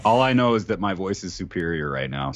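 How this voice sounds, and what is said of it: Deep voice from a cold. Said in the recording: “I have a little bit of a cold ... my voice is deeper and sexier ... you have the good deep voice”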